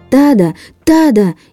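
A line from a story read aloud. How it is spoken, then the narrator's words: Shouting at full strength. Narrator (Russian): изо всех сил закричал Чан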